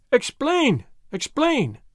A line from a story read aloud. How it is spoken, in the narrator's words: they cried